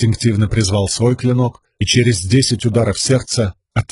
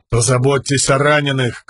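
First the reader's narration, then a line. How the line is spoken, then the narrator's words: Shouted. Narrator (Russian): крикнул Далинор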